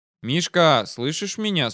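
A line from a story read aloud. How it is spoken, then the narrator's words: Quiet question. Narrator (Russian): спросил я уже негромко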